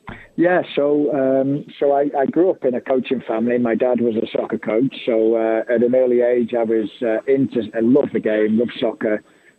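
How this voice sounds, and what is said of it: Slight English accent. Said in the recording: “you could you could probably hear the accent a little bit”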